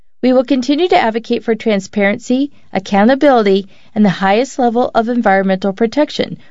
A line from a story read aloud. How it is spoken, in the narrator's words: White said